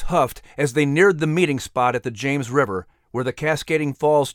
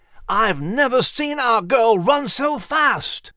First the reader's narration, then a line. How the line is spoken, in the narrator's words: He shouted into Max's large triangle ear